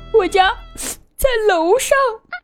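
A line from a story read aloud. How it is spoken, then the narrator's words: Choked, tearful. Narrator (Chinese): 他哽咽着回答道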